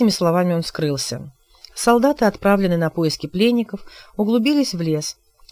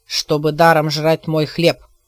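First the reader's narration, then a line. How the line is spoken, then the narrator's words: Snapping retort. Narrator (Russian): огрызнулся Морган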